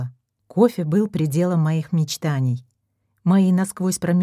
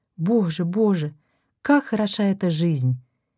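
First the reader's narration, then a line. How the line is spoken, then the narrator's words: Happy sigh. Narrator (Russian): Я счастливо вздохнула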